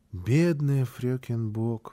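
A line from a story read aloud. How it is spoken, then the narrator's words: Child's sigh. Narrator (Russian): вздохнул малыш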